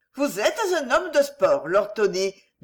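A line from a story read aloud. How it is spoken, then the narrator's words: Cheerful. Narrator (French): dit gaiement Marguerite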